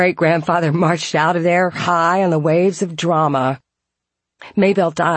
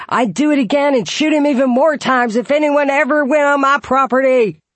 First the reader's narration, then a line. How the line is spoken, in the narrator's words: David volunteered even more information than needed and shouted